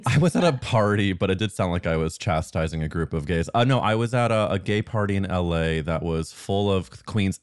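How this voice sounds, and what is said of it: Tired, strained voice. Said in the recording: “My voice is a little tired from screaming”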